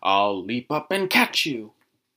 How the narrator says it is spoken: a tiger crouched and snarled and said

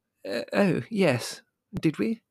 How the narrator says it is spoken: She said nervously

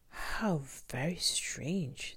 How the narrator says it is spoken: they all murmured

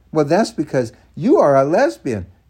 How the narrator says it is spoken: April snapped back

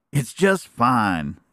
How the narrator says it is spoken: exclaimed Neddie

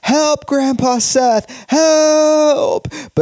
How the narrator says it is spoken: Joshua is screaming

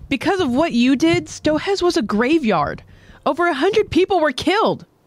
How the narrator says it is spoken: Hitch, she suddenly blurts out

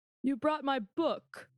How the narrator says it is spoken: Captain Alexander said, in a different voice than before

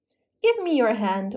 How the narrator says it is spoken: Orsino cried with joy

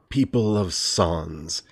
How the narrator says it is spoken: he said in a gravelly voice infused with an almost preternatural authority

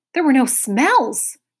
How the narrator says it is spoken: barked Talk, his alarm now ringing furiously

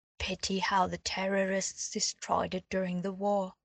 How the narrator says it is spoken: the healer said

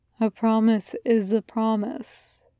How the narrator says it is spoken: Gabriel says softly

